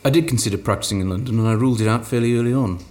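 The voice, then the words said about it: Welsh accent. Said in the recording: “I'm guessing from your accent you're Welsh”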